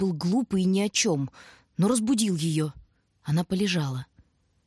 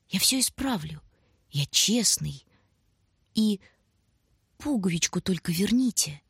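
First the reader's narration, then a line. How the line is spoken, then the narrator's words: Mumbling. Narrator (Russian): Он бормотал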